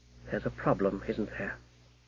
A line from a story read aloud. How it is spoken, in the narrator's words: the wizard said softly